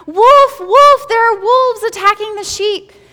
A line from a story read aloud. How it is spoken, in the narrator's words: And he cried